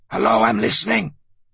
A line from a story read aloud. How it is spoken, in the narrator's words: He exclaimed in a loud whisper into the sieve of the mouthpiece